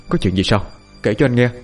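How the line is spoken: Soft gentle voice. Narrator (Vietnamese): Cậu khẽ nói

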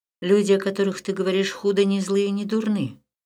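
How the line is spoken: Calm. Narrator (Russian): спокойно сказал Леон

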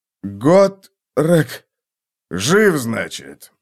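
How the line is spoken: Hoarse. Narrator (Russian): раздался хриплый голос

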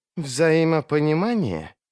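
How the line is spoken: Hiss. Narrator (Russian): прошипел Сульт

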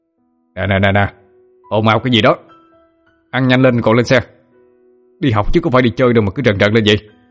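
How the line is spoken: Teacher shouting for order. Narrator (Vietnamese): thầy Thành quát lên để giữ trật tự

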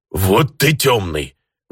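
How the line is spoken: Indignant snort from an orc. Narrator (Russian): возмущенно хмыкнул орк

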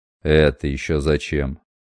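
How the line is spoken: Cold, almost hostile retort. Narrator (Russian): Все так же холодно, почти неприязненно бросил

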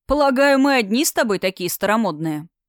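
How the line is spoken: Snorting. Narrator (Russian): Он хмыкнул

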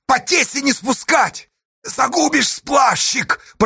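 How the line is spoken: Old man's hoarse rasp. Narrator (Russian): прохрипел старый бурлак Гурьяна Утюгов

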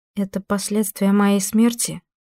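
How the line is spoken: Soft, feigned calm question. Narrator (Russian): мягко спросила Ниида, делая вид, что приступ ее совсем не испугал

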